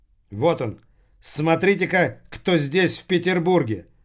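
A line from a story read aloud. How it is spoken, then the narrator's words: Loud exclamation. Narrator (Russian): громко воскликнул Махмуд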